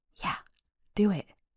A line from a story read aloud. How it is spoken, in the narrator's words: I barely heard her add